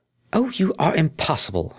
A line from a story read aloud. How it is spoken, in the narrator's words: exclaimed the exasperated Earth Pony